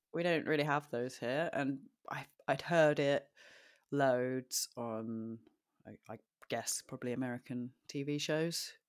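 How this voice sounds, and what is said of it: Posh British accent. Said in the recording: “Sounds really weird in a British accent ... Sounds very, very posh when you say it.”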